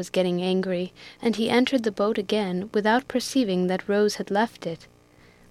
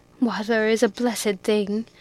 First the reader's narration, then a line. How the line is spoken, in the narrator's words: exclaimed Biddy